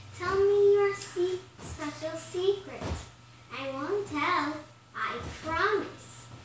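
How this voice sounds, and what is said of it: Whispering character voice. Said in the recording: “she said in her whispering voice.”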